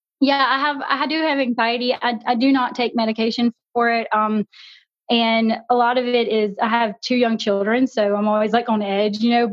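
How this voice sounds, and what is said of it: Southern US drawl, Louisiana. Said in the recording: “That is the coolest accent ... You got that Southern drawl ... You sound like you would be from Baton Rouge here.”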